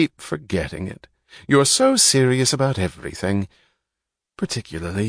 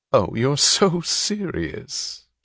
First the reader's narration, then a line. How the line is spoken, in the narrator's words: she laughed